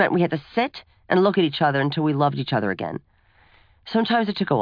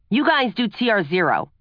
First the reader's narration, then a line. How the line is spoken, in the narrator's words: Mom would shout